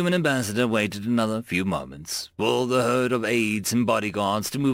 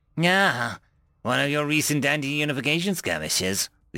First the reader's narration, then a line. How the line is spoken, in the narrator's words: the Elder chuckled